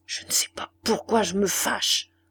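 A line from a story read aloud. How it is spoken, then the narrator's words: Murmuring. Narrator (French): murmura-t-il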